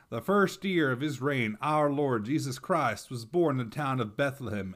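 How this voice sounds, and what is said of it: Put-on Texan accent. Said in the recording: “Activating my Texan accent.”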